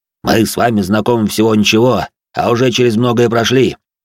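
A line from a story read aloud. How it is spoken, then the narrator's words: Deep bass voice. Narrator (Russian): пробасил он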